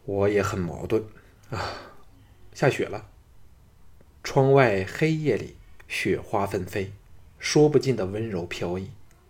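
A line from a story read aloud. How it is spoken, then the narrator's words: Sighing after pondering. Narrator (Chinese): 沉吟了片上，叹道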